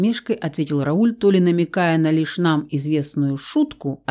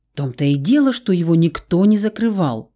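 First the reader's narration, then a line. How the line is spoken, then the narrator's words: Exclaimed. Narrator (Russian): воскликнула Сара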